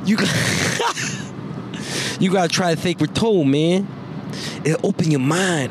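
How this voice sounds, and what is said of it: Mike Tyson impression. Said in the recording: “Mike Tyson impression”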